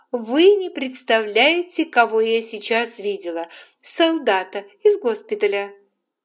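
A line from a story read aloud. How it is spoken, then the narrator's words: Loud. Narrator (Russian): Скарлетт громко сказала матери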